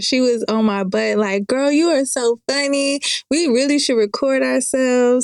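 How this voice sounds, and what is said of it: Southern American accent. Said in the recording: “you have an accent ... Dang, you have a southern accent. It's the South, but it's not like, you know.”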